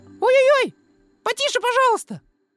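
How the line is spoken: Tiny squeaky voice. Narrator (Russian): чей-то необыкновенно тоненький голосок пропищал

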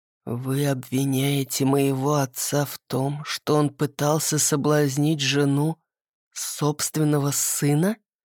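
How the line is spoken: Menacingly quiet question. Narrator (Russian): переспросил Ассар настолько тихо, что мне захотелось отодвинуться вместе с креслом

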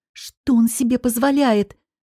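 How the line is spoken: Angry hissing. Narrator (Russian): зашипела Вики, сердито

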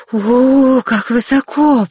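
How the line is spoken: Weak trembling voice. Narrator (Russian): произнесла она ослабевшим и вздрагивающим голосом

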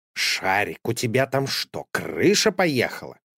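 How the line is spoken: Indignant question. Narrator (Russian): спросил он возмущенно

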